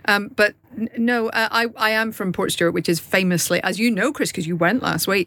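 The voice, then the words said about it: Posh Northern Irish accent. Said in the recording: “I think both of our accents can be described as Northern Irish... upper middle class Northern Irish accent. She's been to a few elocution lessons.”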